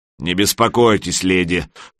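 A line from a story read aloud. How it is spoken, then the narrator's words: Deep bass voice. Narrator (Russian): пробасил маленький тролль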